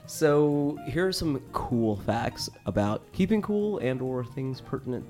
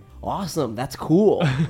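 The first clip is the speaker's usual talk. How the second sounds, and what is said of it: Impression of an average American. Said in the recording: “This is my impression of the average American.”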